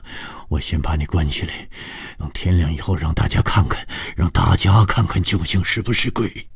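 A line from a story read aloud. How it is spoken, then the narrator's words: Breathless old man. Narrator (Chinese): 老头子气喘吁吁地说着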